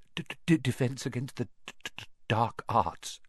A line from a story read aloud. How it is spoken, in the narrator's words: muttered Professor Quirrell, as though he'd rather not think about it